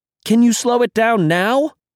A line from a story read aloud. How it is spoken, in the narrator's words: Brian shouted